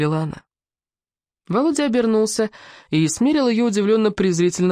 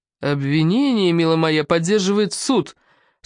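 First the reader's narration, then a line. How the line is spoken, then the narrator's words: Through clenched teeth. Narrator (Russian): сквозь зубы процедил Стасов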